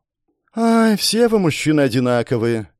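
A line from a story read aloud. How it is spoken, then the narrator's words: Theatrical sigh. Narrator (Russian): картинно вздохнула Лиара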